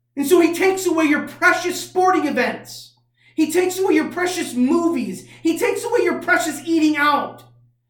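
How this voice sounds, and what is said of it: Angry, forceful preaching voice. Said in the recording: “I sound angry right now”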